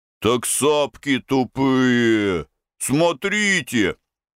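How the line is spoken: Offended booming drone. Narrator (Russian): один из них выше ростом обиженно прогудел

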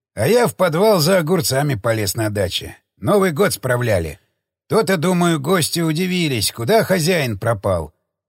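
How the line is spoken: Old man sighing. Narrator (Russian): вздохнул дедёк

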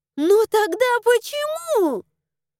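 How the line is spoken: Indignant yell. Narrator (Russian): Возмущенно завопила я

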